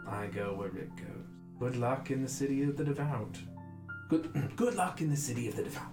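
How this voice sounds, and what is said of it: Fun accented character voice. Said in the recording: “I keep going Miss Cole... It's such a fun accent.”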